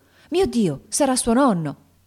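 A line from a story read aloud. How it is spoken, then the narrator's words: Exclaimed. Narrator (Italian): esclamando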